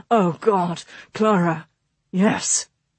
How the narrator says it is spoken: August managed through clenched teeth

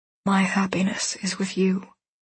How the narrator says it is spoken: He whispers

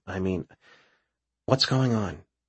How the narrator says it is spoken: Raven sighs

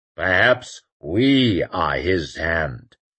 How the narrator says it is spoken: rumbled Joubert

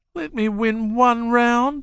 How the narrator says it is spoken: she pleaded

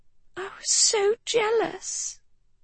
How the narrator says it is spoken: she whispered

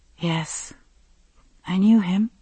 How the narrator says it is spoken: she said again, so softly Roger could scarcely hear her

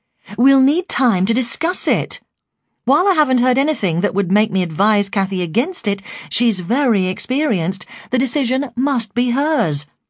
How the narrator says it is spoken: said Jill firmly

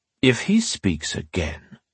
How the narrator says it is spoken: Phelan Parr said to one of his soldiers in a cold, emotionless voice

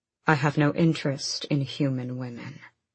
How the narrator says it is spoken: he purred

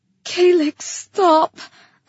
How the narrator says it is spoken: I begged

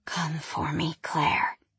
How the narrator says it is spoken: he whispered

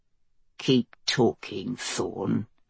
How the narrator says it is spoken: Mace said in a low voice

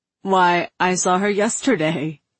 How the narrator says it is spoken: Kai said, laughing

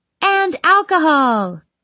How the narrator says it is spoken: Mara shouts

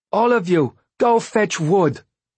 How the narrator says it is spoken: Dwalia shouted

